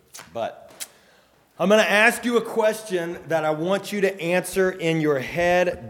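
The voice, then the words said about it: Strained voice. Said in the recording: “I realize that my voice sounds strained.”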